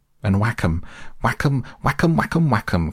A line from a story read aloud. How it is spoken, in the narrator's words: cried the toad in ecstasy